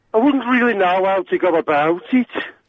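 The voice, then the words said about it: Scottish man attempting Brummie accent. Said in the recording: “can you do a Birmingham accent? Because I want to hear a Scotsman doing a Brummie accent ... Hey, that's pretty good, man. That's pretty darn good.”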